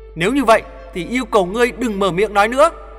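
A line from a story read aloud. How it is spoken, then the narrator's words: Near shouting. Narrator (Vietnamese): nói như hét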